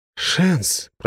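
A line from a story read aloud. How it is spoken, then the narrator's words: Young man mumbling. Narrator (Russian): пробормотал парень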